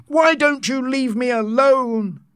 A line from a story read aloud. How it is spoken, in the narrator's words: the savage cried